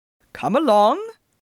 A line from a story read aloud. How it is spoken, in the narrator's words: Phelps called cheerfully from the path